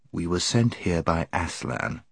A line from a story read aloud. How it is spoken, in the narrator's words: said Eustace in a low voice